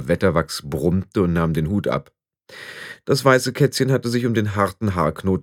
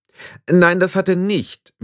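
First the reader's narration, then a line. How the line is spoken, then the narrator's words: Sharp old woman. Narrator (German): widersprach Oma Wetterwachs scharf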